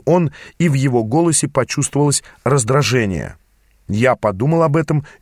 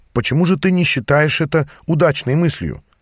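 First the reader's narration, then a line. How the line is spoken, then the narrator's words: Humbler tone. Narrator (Russian): спросил я более смиренным тоном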